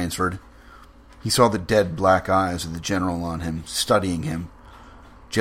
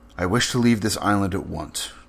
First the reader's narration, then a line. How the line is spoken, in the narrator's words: said Rainsford firmly